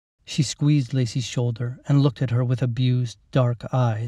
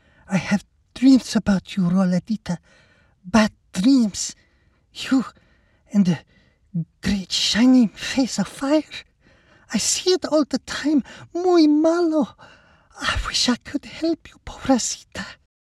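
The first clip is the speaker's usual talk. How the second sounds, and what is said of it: Husky voice with thick accent. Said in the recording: “the woman husked in a thick accent”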